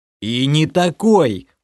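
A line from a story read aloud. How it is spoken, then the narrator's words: Angry growl. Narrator (Russian): уже зло прорычал я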